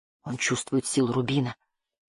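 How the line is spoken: Boy's whispered reply. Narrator (Russian): прошептал мальчик в ответ

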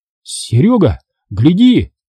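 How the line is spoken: Shout. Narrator (Russian): крикнул Иван

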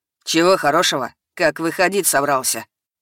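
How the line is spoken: Mocking question. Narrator (Russian): Насмешливо поинтересовался Ярин

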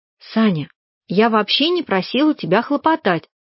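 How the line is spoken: Calm. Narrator (Russian): сказала я спокойно

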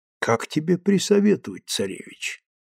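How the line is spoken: Soft velvety voice. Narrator (Russian): мягким бархатным голосом ответил Толстой

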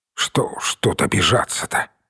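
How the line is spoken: Muttered. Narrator (Russian): пробормотал Данилов

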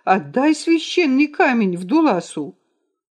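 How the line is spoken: Fearful but forced shout. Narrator (Russian): преодолевая страх, Вдулас снова закричал

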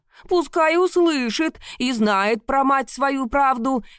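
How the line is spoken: Shouting gossiping woman. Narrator (Russian): кричала другая кумушка

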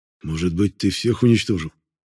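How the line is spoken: Quiet whisper. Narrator (Russian): негромко прошептал Воронцов

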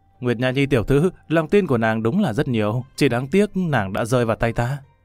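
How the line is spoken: Loud laughing. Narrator (Vietnamese): Lâm Văn Vinh cười lớn

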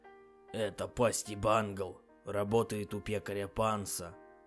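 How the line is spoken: Whispered reply. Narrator (Russian): прошептал в ответ Фаций

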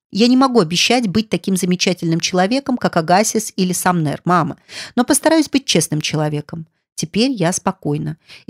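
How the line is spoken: Calm, firm. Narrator (Russian): Арчи сказал спокойным и твердым тоном

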